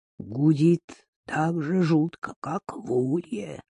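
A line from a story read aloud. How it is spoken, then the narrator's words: Plain. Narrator (Russian): сказал Газан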